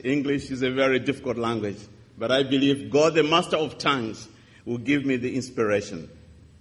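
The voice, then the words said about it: African-accented English. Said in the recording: “we in Africa, we murdered it... understand my accent”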